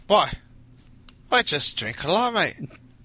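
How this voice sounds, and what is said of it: Put-on Irish accent. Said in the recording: “Can you teach me how to do an Irish accent? ... I feel offended by that impression.”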